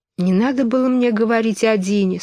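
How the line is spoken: Sad. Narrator (Russian): сказала она грустно

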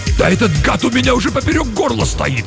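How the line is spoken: Barked. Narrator (Russian): рявкнул Юров

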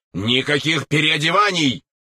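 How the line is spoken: Indignant shout, military officer. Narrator (Russian): возмущенно закричал майор

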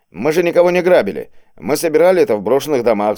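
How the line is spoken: Shouting. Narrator (Russian): закричал он

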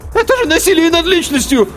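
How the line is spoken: Squeaked, then faltered. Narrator (Russian): Пискнул было тот

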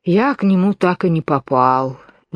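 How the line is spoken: Sighing. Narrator (Russian): вздохнул черепаха телячьи ножки

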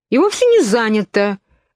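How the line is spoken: Indignant objection. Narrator (Russian): возмущенно возразила Алиса

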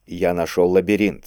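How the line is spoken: Plain. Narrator (Russian): сказал Кийск

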